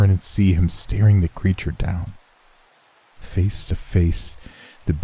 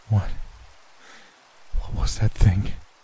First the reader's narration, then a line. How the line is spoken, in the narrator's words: asked between gasps